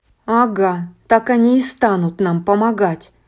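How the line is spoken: Grumbling. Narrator (Russian): проворчала Эпплджек

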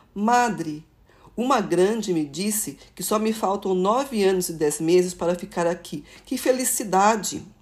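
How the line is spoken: Child exclaiming happily. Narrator (Portuguese): uma criança de 5 anos um dia exclamou

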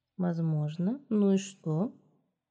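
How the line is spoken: Quiet, curt question. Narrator (Russian): Тихо спросила Ренфри, тоже не очень-то учтиво

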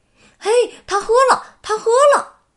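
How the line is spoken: Happy shouting. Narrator (Chinese): 佩吉和保罗 高兴地嚷

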